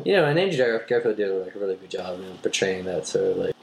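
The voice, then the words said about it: Drawling voice like Matthew McConaughey. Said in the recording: “Kind of sounds like you were just talking like Matthew McConaughey. ... That was a fantastic accent or whatever that was.”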